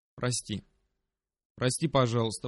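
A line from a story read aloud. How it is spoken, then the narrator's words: Mumbling. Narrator (Russian): пробормотал я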